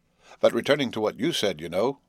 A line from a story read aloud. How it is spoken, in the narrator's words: pursued the old man, again laughing heartily